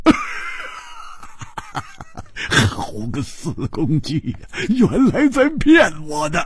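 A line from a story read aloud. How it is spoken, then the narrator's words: Sudden loud laughter. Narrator (Chinese): 忽然大笑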